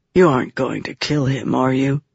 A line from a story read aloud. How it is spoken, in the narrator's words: Vatha asked softly